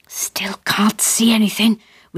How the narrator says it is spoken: whispered Dad

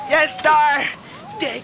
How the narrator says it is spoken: squealing

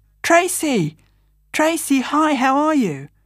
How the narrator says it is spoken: a voice called out

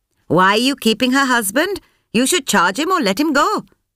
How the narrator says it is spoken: Sampath snapped

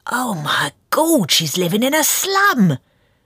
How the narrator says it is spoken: said in a loud stage whisper

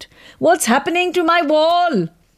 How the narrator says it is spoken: Fatima began to shout

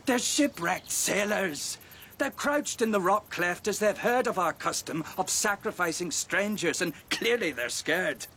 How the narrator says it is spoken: another, a bit outspoken in his lack of belief, laughed at the prayer and said

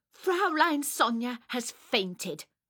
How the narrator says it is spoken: I said crossly

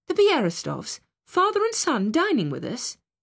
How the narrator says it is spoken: she exclaimed, turning pale

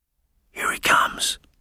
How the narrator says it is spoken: whispered Volatile

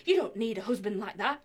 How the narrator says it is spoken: he says

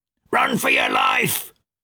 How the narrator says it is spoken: a shout of

